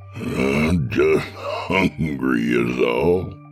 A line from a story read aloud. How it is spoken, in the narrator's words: he chuckled